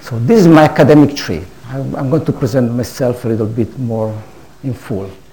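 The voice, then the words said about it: Noticeable foreign accent in English. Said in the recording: “bear with my accent, so be patient. It's also late in the evening, so my accent goes downstream.”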